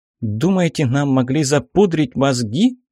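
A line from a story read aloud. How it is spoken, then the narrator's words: Indignant question. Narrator (Russian): Возмущенно спросила Аллегра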